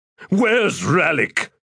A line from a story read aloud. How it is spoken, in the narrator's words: asked in a growl